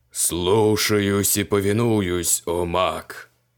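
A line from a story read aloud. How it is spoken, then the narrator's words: Booming voice. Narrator (Russian): прогремел демон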